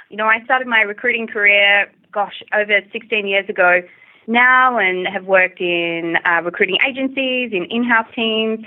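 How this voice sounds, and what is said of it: Australian accent. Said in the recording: “I'm originally from Australia, if you may not have already figured it out from my accent.”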